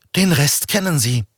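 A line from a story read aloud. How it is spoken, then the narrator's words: Trembling voice. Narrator (German): sagte Veronika Marx mit zitternder Stimme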